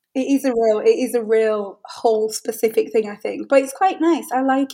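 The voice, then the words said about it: Hull English accent. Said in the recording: “that that's actually the Hull accent ... exactly how your mum says it ... both from Ben's mum and from yourself, I understand it perfectly”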